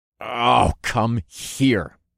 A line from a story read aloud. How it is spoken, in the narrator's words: I growled